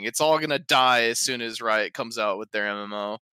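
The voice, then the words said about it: Sarcastic delivery. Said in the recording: “Slash S, if you couldn't tell. I'm being sarcastic.”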